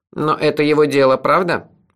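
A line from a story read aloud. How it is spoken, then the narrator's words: Cold question. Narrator (Russian): холодно спросил Куруш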